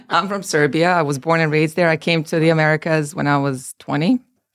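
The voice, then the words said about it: Non-American foreign accent. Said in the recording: “your accent is not from America”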